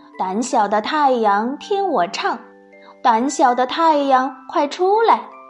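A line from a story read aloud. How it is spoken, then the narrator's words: Melodious singing. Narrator (Chinese): 他的声音虽然是婉转悠扬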